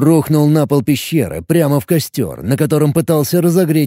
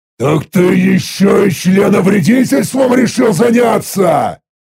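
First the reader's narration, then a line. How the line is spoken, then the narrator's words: Indignant roar. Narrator (Russian): Возмущенно взревел я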